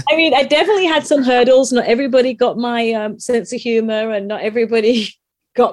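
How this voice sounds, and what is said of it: English accent. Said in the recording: “They loved the English accent”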